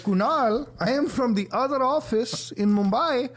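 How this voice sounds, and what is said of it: Put-on Indian accent. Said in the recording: “Indian ... It's the only time you speak in the accent ... I love speaking in the accent”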